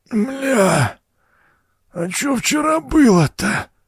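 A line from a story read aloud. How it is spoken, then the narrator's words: Strained, drunken exhale. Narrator (Russian): Сдавленно выдохнул пьяница, плохо различая собственный голос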